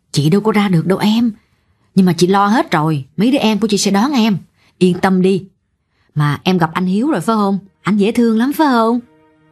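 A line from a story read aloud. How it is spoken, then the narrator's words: Stern. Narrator (Vietnamese): Chị Năm nghiêm giọng nói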